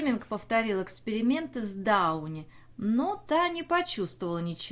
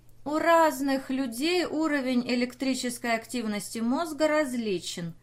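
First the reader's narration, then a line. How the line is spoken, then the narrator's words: Plain. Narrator (Russian): сказала Дауни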